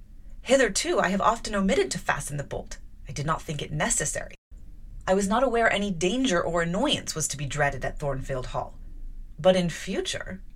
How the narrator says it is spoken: I replied sharply

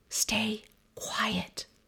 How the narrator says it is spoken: a tiny voice inside me whispers

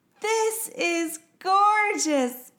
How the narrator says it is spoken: Peyton screamed

